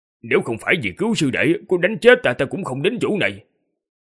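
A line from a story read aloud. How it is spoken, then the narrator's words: Muttered. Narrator (Vietnamese): lẩm bẩm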